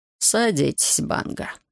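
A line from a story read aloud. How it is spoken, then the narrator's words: Soft, tired voice. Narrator (Russian): мягким усталым голосом пригласил следователь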